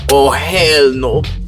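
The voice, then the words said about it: Bad put-on Asian accent. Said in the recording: “That's the worst Asian accent ever.”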